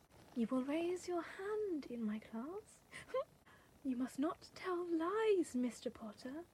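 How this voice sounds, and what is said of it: Umbridge character voice. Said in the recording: “do an impression of Umbridge”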